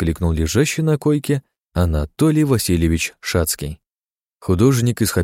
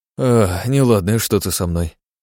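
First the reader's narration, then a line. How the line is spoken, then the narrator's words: Sigh. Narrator (Russian): вздохнул он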